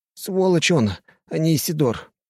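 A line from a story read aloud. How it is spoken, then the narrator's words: Moan. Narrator (Russian): простонал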